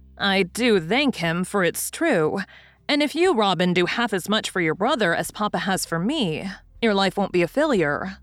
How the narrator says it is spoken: said Mrs

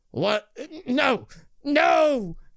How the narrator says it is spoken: Brixton cries out

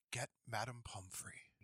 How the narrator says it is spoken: whispered Dumbledore

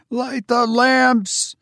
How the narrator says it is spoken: she cried hysterically

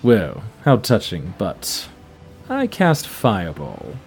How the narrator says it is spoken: mutter something, he says

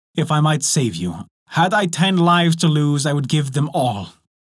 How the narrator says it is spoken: cried

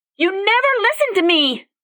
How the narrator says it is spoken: She screamed with her thoughts

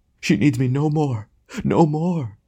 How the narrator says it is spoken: he said in a choking voice

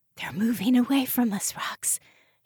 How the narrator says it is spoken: whispered

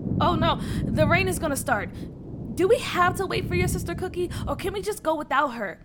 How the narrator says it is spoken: Tia said anxiously

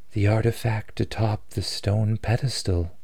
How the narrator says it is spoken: she replied, her voice filled with sorrow

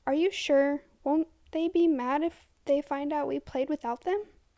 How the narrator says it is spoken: I asked quietly

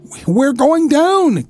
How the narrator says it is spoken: came a scream from May Powell

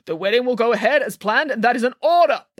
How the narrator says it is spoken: barked the king

